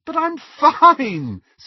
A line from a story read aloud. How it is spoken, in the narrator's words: said Lily, still giggling